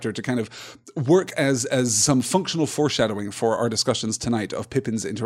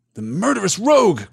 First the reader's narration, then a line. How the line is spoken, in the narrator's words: cried Éomer